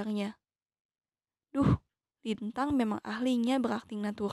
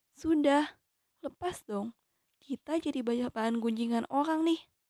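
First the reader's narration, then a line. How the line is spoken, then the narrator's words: Pleading. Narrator (Indonesian): aku memohon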